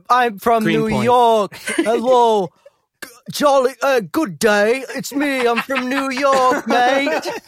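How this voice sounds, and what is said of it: Put-on foreign accent. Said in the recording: “what was that accent? ... Oh, spot on.”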